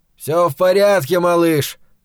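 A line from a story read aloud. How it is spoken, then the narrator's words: Shout. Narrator (Russian): крикнул ему Невиль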